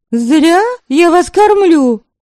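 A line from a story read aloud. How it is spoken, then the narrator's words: Stern shout. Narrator (Russian): строго прикрикнула Девляна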